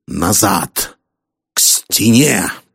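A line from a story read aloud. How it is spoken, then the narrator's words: Growled command. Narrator (Russian): прорычал Харрисон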